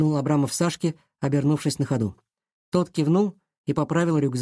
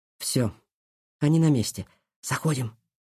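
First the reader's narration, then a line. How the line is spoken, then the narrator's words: Whispered. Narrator (Russian): прошептал он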